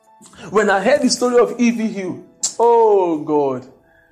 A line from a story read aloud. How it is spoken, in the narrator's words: I cried